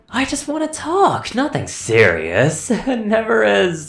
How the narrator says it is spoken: the entity remarked in a sing-song tone

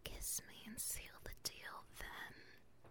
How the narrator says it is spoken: she whispers in his ear

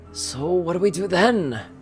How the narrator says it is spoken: Rarity asked in a slightly desperate tone

